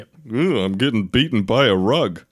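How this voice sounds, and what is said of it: Impression of cartoon genie voice. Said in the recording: “This is my impression ... The original genie ... From the original Aladdin.”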